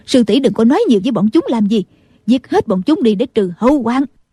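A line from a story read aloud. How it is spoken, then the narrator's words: Angry nun speaking. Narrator (Vietnamese): Định Vật sư thái tức giận nói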